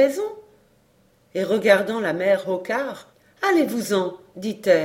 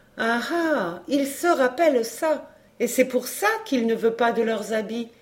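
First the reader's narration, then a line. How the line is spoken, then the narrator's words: Woman exclaiming. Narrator (French): s'écria la brave femme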